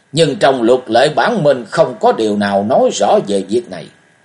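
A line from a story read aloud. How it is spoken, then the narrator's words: Loud voice. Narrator (Vietnamese): Hình ti điện chủ lớn tiếng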